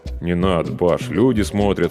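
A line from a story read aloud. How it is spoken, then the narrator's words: Embarrassed mutter. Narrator (Russian): смущенно пробормотал я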